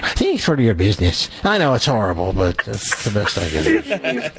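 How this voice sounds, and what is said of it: Put-on Irish accent. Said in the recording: “Let me hear your best Irish accent.”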